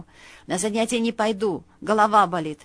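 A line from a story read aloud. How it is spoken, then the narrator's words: Sleepy grumble. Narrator (Russian): пробурчала сонная подруга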